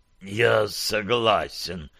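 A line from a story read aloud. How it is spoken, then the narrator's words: Exhausted wheeze. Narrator (Russian): прохрипел Питер из последних сил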